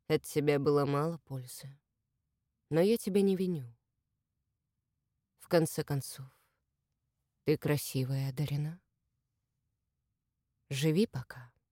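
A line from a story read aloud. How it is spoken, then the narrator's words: Quiet, thoughtful remark. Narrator (Russian): Мужчина вполголоса задумчиво заметил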